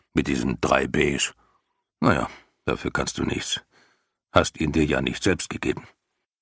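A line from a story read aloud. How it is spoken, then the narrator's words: Man growling. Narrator (German): knurrte der Mann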